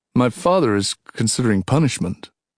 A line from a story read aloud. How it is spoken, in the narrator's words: he said